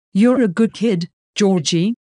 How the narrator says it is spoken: Heidi says kindly

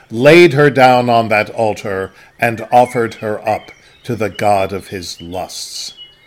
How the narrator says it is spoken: Vroom thundered

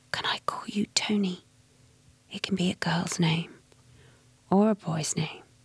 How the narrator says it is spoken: he whispered

